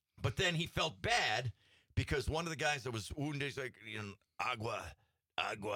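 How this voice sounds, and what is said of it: Usual voice. Nothing is said of it.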